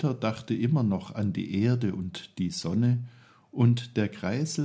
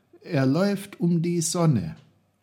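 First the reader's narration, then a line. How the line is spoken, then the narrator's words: Call. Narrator (German): rief Peter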